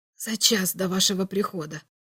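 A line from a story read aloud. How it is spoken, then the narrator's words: Quiet. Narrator (Russian): тихо проговорил собеседник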